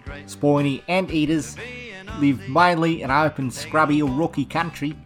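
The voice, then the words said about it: Put-on Australian accent. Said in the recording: “Your accent's still killing mine. Oh, it's still way better. ... Sound like you're from Wagga, mate.”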